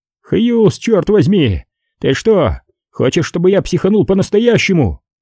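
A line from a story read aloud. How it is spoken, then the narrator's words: Shout. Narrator (Russian): Перджи крикнул вдогонку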